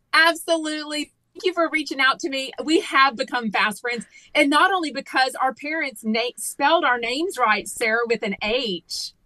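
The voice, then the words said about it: Southern Texas accent. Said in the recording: “I'm a sucker for a Southern accent anyway. I love a Texas gal.”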